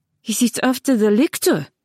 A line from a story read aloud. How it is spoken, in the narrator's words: Weesuffer said urgently